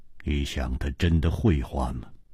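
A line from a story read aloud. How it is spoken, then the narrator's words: Cold. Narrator (Chinese): 姬冰燕冷冷地说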